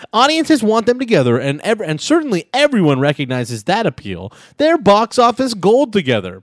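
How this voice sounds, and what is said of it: Hollywood entertainment-reporter voice. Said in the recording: “The Hollywood voice? I do the Hollywood voice.”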